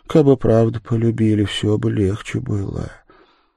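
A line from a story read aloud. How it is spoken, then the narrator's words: Quiet tearful reply. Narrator (Russian): Она тихо ответила, смаргивая слезы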